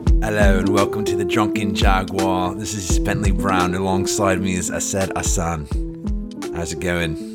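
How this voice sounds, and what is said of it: Put-on mixed Yorkshire-Australian accent. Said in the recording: “I'm fluctuating between this Yorkshire kind of South Yorkshire accent and something from Australia at the same time ... a douchey English guy voice”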